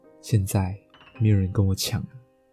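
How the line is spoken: Quiet, eerie smiling voice. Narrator (Chinese): 那女的露出一抹很诡异的微笑，就默默的对我说

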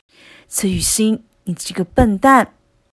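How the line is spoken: Whispered in ear. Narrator (Chinese): 郑仁伟在他耳边压低声音开口

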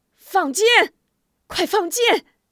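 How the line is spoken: Shocked shout. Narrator (Chinese): 许仁一时被这突如其来的场面惊呆了，突然清醒过来，大喊

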